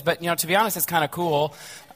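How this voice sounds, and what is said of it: Lower, raspy voice from cold. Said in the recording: “I'm battling a head cold. And so my voice is a little lower and raspier than it normally is.”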